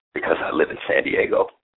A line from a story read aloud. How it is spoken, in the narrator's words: My response was, with a chuckle